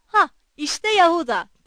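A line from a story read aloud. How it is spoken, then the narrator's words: Shouted. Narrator (Turkish): diye bağırdı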